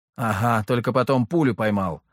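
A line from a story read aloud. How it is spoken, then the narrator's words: Wry snort. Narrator (Russian): хмыкнул я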